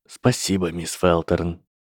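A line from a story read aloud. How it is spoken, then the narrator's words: Quiet. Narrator (Russian): тихо сказал Снейп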